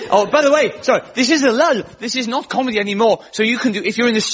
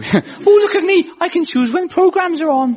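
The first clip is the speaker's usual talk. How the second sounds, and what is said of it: Middle-aged imitated listener voice. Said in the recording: “my impression of people who listen online ... Sounded kind of middle-aged.”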